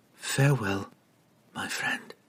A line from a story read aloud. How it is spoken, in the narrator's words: whispered